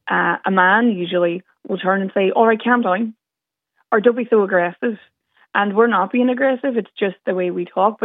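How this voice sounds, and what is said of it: Northern Irish Derry accent. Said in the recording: “the Northern accent ... I'm very proud of my accent ... I'm from Derry”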